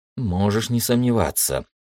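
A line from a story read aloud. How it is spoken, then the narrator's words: Thoughtful. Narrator (Russian): задумчиво Виктор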